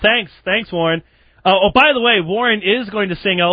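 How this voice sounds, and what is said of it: Usual voice. Nothing is said of it.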